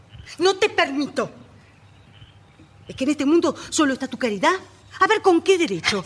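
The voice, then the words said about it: Shouting angrily. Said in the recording (Spanish): “No grites.”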